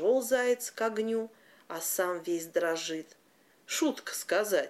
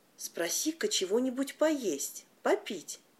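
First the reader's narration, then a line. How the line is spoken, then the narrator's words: Quiet. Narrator (Russian): тихонько сказала борзая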